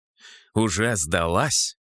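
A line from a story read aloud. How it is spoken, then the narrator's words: Snort. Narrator (Russian): хмыкнул я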